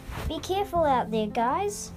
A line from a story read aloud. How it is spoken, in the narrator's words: said Mum